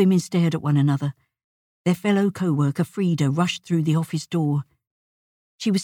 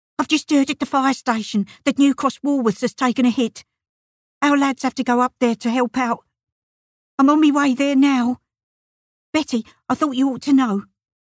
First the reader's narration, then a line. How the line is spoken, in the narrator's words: hasty arrival, she blurted out